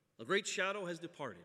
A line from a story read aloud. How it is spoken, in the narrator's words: said Gandalf